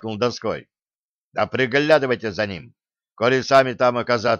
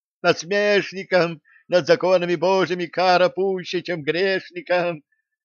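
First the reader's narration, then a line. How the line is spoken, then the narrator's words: Distant yelling young man. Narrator (Russian): уже из-за распахнутой двери вопил парень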